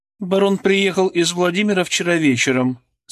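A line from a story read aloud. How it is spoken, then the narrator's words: Dry, curt speech. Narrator (Russian): сказала она сухо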